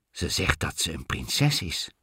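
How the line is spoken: King whispering. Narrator (Dutch): fluisterde de koning

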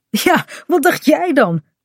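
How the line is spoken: Laughing speech. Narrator (Dutch): zegt Kaat lachend

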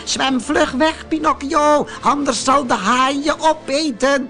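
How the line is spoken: Frightened goat calling. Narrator (Dutch): Het blauwe geitje riep angstig

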